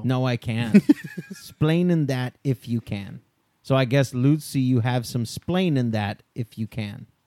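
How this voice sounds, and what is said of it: Put-on Cuban accent. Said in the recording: “the Cuban accent that well”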